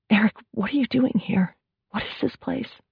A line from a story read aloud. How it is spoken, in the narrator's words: Carrie spoke in a hushed whisper, afraid someone might come for her